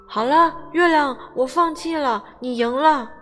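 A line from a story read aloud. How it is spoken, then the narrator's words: Loud. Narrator (Chinese): 小熊大声说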